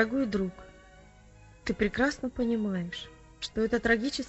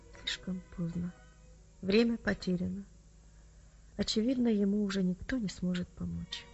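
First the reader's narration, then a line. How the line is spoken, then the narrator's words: Quiet, somber. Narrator (Russian): Врач тихо произнес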